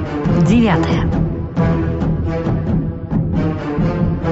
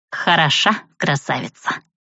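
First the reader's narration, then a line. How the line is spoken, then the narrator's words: Snort. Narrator (Russian): хмыкнула я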